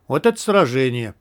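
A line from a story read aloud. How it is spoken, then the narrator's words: Relieved sigh. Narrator (Russian): Командор облегченно вздохнул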